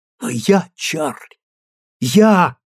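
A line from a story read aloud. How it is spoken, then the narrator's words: Terrified cry. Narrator (Russian): в ужасе вскрикнула она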